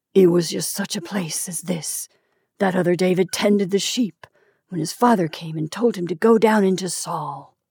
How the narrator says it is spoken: he muttered

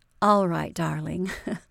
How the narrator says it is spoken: Mary laughed

